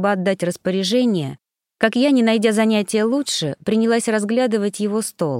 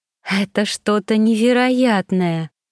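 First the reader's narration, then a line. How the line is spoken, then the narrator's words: Blissful sigh. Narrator (Russian): блаженно выдохнула я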